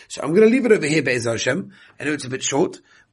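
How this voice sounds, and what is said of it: Strained, worn-out voice. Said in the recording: “my voice is really, really tough, and I've got to save it”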